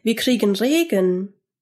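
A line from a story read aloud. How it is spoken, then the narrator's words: Called out. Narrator (German): rief Georg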